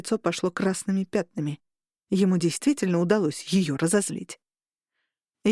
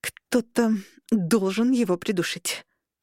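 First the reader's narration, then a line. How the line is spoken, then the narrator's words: Through gritted teeth. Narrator (Russian): процедила Арабелла сквозь зубы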